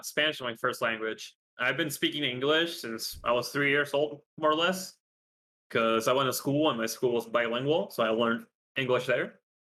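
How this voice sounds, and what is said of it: American-sounding English accent. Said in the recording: “I actually played a lot of Minecraft with Americans, so that's why the accent stuck with me, and people think I'm actually from there”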